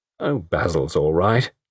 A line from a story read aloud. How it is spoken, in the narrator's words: Betty said sharply